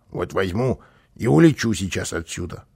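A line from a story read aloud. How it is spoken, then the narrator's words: Grumbling. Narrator (Russian): проворчал он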